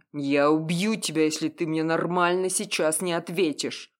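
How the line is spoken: Roar like wounded beast. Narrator (Russian): взревел раненым зверем

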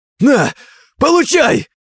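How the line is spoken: Forced emotional shout. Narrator (Russian): Чтобы разжечь в себе эмоции, он закричал

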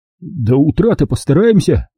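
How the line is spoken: Hesitant promise. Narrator (Russian): неуверенно пообещал бык

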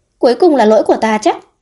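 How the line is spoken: Laughing. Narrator (Vietnamese): Vấn Dược bật cười

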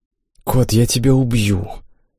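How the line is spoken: Quiet whisper. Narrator (Russian): Тихо прошептала Имма, пряча покрасневшее личико у меня на груди

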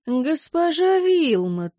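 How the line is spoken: Drawling, mimicking tone. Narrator (Russian): в тон мне протянул этот всегда такой галантный, доброжелательно учтивый аристократ

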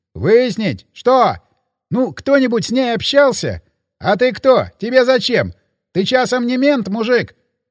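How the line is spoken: Bartender shouting. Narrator (Russian): прокричал бармен

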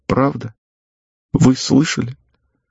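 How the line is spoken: Tearful smiling question. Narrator (Russian): Девушка улыбнулась сквозь слезы и спросила

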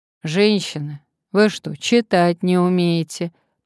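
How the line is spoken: Gloomy mumble. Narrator (Russian): промямлил он мрачно

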